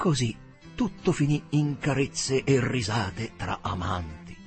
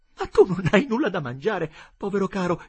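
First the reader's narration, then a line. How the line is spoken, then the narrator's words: Tender, compassionate exclamation. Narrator (Italian): esclamò con tenera compassione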